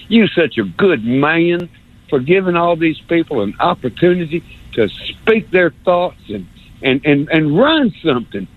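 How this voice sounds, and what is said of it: Put-on North Alabama accent. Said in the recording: “I love this North Alabama accent thing. I'm going to do it again.”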